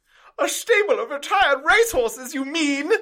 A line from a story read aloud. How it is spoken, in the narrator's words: She exclaimed